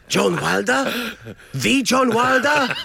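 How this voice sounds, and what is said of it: Exaggerated generic foreign accent. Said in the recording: “his generic, borderline offensive overseas accent ... is a dead ringer for El Guapo in Romancing the Stone”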